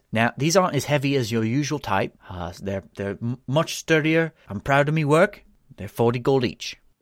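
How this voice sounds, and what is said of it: Character voice with harsh accent. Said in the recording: “she's developed a harsher accent as we've moved on”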